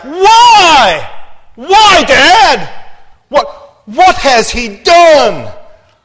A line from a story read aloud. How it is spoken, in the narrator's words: Jonathan roars back